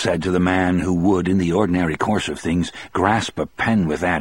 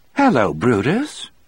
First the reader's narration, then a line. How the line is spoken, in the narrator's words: Melinda said in a cheerful voice, as if noticing him for the first time